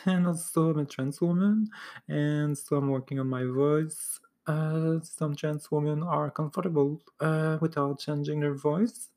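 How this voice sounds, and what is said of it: French Canadian accent in English. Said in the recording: “English is my second language, French is my first language. I'm from Montreal, so I have a special accent.”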